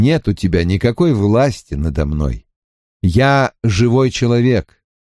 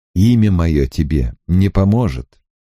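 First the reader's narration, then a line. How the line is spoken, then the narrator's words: Calm. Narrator (Russian): спокойно промолвил Гет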